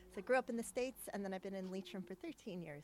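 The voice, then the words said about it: Non-local accent. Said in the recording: “that's not a local accent that I'm listening to”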